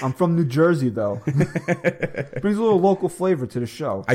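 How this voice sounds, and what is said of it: New York-sounding regional accent. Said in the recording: “Your accent is so annoying. ... Makes you sound like you're from New York.”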